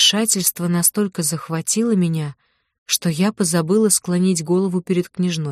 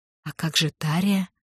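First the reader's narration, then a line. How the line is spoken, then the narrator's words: Quiet question. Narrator (Russian): тихо спросила я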